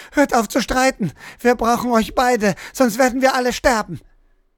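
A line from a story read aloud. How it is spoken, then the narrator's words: Girl screaming while crying. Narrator (German): schrie das Mädchen nun weinend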